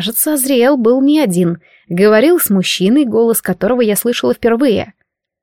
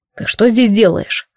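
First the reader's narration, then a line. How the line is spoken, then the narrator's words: Sharp question. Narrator (Russian): резко спросил Азриэл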